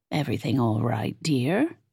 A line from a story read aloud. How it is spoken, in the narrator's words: Nance asked, her tone concerned